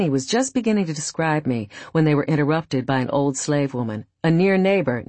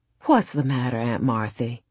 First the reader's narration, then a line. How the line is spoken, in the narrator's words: she said in a sympathizing tone